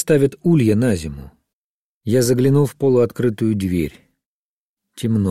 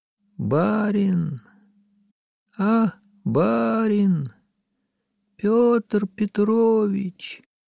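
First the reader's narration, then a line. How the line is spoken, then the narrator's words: Weak, slow, hoarse rustling voice. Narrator (Russian): послышался мне голос слабый, медленный и сиплый, как шелест болотной осоки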